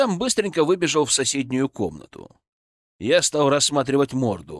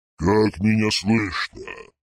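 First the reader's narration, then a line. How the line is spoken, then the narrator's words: Plaster face growling. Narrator (Russian): прорычала гипсовая морда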